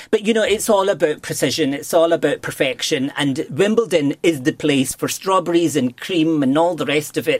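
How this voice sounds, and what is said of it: Glaswegian Scottish accent. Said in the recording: “my dulcet tones of a Glaswegian accent”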